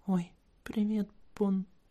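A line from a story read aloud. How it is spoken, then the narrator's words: Squeak. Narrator (Russian): она пискнула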